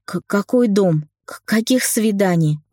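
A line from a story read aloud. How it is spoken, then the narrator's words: Indignant stammering. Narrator (Russian): От возмущения начала заикаться я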